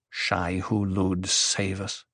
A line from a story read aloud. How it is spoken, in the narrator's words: Paul murmured